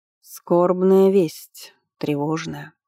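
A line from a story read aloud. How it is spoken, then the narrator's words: Grim, somber. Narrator (Russian): мрачно произнес служитель Ануи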